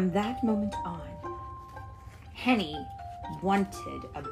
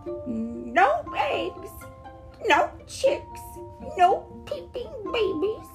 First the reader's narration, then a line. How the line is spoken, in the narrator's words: Henny wailed so loudly, her tears pouring down